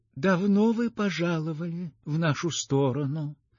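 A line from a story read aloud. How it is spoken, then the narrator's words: Weak, quiet voice. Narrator (Russian): спросила слабым и тихим голосом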